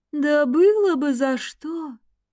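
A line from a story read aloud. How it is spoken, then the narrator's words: Ghost, faint sigh. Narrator (Russian): Призрак едва уловимо вздохнул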